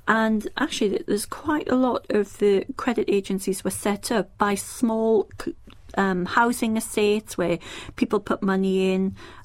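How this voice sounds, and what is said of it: Northeast English accent. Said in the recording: “as you know by my accent, I'm from the northeast of England”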